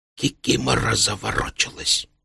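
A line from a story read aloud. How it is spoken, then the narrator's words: Whisper. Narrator (Russian): шепнул он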